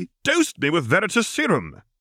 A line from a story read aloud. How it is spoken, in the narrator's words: exclaimed Tom